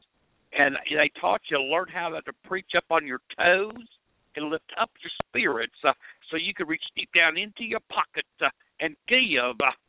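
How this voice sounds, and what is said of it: Southern Baptist preacher voice. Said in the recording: “your Southern Baptist preacher talking ... in that same little voice”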